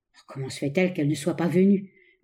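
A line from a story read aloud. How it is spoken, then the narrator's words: Murmured. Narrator (French): murmura l'ingénieur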